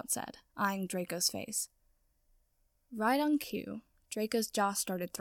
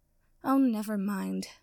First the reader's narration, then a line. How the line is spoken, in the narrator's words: Sprout said and sighed